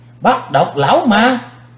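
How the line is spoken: Crowd shouting in unison. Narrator (Vietnamese): Quần hùng đồng thanh kêu lên

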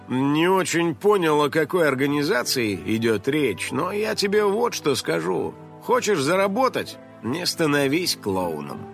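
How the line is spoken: Grumbling. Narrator (Russian): пробурчал другой

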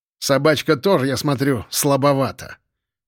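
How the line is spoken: Loud snort. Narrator (Russian): хмыкнул во всеуслышание полкан

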